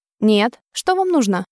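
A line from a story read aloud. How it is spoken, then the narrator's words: Icy metallic tone. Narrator (Russian): повторила свой вопрос металлическим, ледяным тоном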